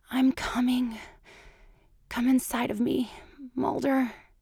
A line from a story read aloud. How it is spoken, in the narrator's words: breathed